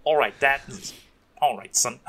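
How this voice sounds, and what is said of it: Kiwi accent imitating Daniel Logan. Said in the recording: “in his Kiwi accent”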